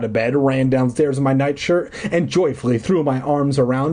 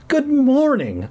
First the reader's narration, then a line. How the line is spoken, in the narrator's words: I cried happily